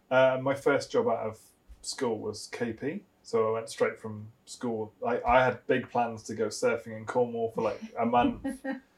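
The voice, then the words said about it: Slight Gloucester regional twang. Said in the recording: “I obviously from Gloucester, but without the accent... You have got a bit of an accent... It's a bit of a twang”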